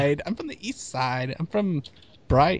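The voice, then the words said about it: Bad British accent, Australian-South African. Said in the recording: “my British accent. It was like an Australian accent mixed with a South African accent. So apparently my British accent's pretty bad”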